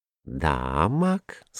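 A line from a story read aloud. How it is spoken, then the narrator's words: Calm, thoughtful. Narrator (Russian): сказала фиалка спокойно и задумчиво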